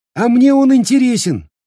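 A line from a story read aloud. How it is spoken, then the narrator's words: Cheerful reply. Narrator (Russian): весело отвечает Пьер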